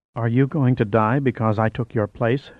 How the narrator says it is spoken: asked softly

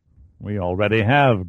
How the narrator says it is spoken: grunted Gly

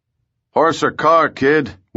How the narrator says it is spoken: yelled

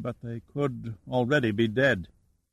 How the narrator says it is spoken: Ragsdale said quietly

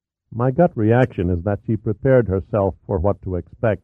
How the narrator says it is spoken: Rooney replied

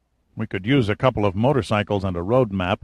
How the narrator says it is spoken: Giordino muttered

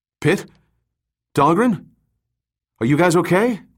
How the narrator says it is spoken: Delgado shouted out hesitantly

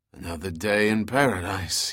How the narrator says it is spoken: rasped through a parched mouth

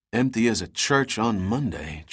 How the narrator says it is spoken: Giordino whispered

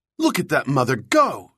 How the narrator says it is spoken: exclaimed

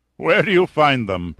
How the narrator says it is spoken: Perlmutter laughed

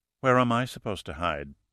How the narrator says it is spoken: She asked softly

